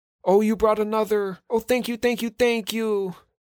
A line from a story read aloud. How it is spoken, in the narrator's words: exclaimed